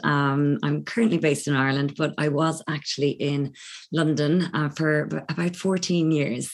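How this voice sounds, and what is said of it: Irish accent. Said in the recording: “I'm Irish, as you may pick up from my accent.”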